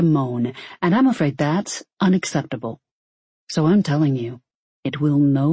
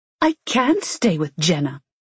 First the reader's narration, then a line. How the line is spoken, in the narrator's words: she snapped